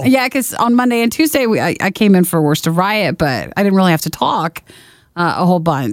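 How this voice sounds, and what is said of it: Strained voice from a cold. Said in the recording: “when you have a cold or a cough ... my voice is like, what are we doing?”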